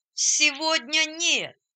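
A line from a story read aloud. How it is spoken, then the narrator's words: Joyful group shout. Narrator (Russian): радостно закричали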